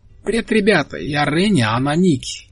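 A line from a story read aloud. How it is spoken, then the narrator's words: Cheerful, taller girl. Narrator (Russian): весело сказала та, что повыше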